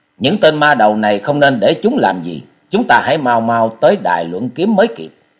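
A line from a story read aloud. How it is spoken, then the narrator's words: Loud, urgent. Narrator (Vietnamese): Kế quan thấy thế liền lớn tiếng nói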